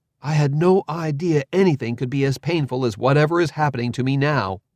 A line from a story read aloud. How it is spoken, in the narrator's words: His scream sounded surprised